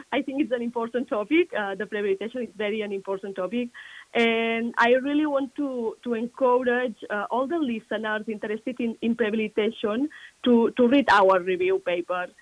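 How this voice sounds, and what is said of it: Non-native accent. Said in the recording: “despite of my accent”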